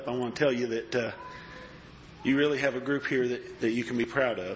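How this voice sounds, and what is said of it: Choked-up, emotional voice. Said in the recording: “It's hard for me to talk. I get a little choked up.”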